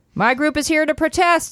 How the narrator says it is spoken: Celia shouted

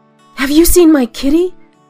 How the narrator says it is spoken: Lucy urgently blurted

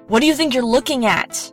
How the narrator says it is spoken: She growled

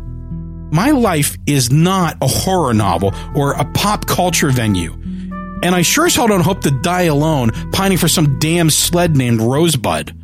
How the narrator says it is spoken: I yelled

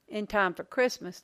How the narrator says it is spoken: Luke said

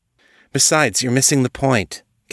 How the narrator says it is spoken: Katane said

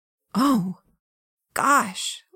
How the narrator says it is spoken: Lillian said under her breath

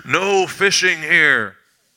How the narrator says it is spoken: this voice booms out

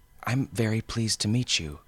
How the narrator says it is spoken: she said

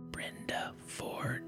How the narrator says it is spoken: out of the darkness beside me, the whisper came

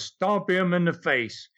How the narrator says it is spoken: he screamed so loud from upstairs that you could hear him all over the building

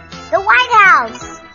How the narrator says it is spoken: yelled Webster

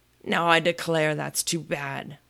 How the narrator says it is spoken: Humpty Dumpty cried, breaking into a sudden passion

